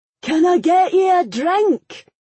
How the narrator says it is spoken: the man yelled over the top of the next song

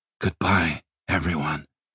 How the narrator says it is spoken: Simon said quietly

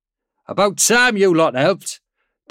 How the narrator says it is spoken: Daniel called out from the port sponson

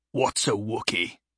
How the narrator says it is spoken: the hairy man growled

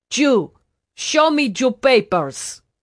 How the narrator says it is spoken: In badly accented English, he barked

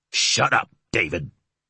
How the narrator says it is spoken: Max hissed

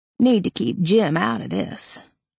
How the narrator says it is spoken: Red mumbled under his breath

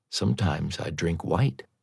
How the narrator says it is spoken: smiling ruefully and saying softly

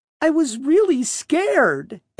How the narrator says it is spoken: Arius whined

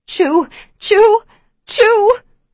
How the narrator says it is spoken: I scream her name

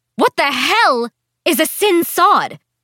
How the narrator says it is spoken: Priscilla shouted, so confused

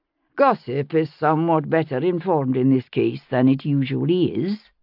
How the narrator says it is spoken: Jamie answered evenly

